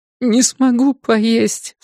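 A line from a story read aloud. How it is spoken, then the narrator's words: Sobbing. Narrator (Russian): всхлипнула она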